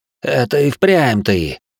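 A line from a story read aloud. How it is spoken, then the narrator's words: Short angry laugh. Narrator (Russian): Коротко зло рассмеялся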